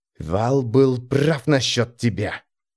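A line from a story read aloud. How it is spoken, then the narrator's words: Whisper. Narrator (Russian): шепнул он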